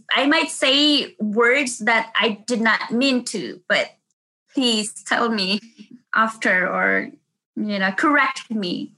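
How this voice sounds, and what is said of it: Speaks with a foreign accent. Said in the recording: “I have this accent.”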